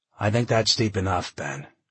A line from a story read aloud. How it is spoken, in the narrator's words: John said